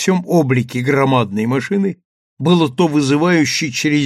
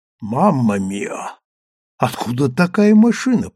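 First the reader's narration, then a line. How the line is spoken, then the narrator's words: Whisper. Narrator (Russian): прошептала Леа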